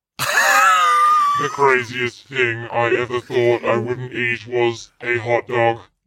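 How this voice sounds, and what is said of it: Silly put-on character voice. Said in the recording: “Still doing the voice?”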